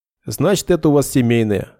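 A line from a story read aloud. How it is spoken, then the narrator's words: Snort. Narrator (Russian): хмыкнул Нед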